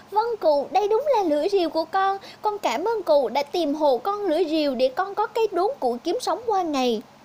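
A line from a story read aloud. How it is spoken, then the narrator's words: Joyful exclamation. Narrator (Vietnamese): Thấy đúng là lưỡi rìu của mình rồi, anh chàng tiều phu reo lên sung sướng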